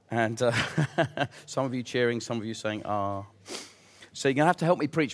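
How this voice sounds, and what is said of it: Strained, fading voice. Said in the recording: “I'm losing my voice.”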